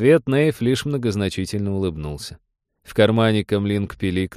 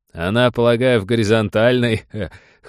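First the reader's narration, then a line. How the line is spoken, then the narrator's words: Lieutenant's short chuckle. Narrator (Russian): хохотнул лейтенант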